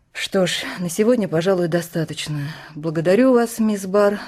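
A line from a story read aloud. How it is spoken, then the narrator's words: Sighing. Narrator (Russian): вздохнула помощник прокурора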